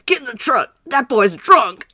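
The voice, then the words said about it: Forceful put-on Southern accent. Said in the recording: “a Southern accent ... It was just so, forceful”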